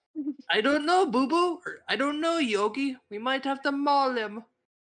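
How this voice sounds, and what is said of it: Cartoonish Italian Mario-style voice. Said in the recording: “Why is Boo Boo Italian? ... I wanted to do a Mario voice or Luigi.”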